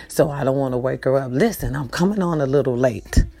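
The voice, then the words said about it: Soft whisper. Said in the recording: “I'm whispering a little bit”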